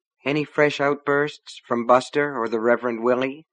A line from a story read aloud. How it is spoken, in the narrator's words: asked sleepily